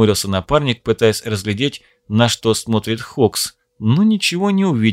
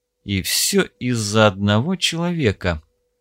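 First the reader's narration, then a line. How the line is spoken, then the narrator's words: Man muttering. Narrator (Russian): пробормотал помощник Стива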